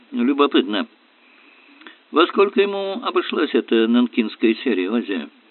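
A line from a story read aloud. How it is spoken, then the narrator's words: Strangely indifferent question. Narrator (Russian): спросил странно безразличным тоном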